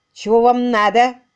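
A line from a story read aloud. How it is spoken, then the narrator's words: Rude question. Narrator (Russian): грубо спросил он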